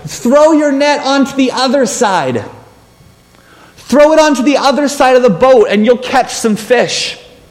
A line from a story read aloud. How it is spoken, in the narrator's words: this voice from the shore yells out